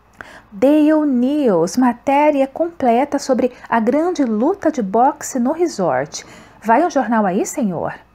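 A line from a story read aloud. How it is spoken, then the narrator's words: Shouting. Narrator (Portuguese): Um deles gritava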